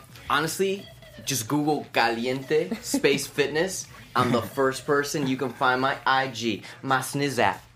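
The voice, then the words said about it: Spanish accent with rolled r's. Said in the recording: “it is so nice to hear a Spanish accent... that caliente, that my tongues don't roll like yours does”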